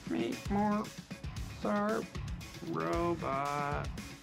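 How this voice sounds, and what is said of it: Bad imitation robot voice. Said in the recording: “do the robot voice... That's a terrible robot voice.”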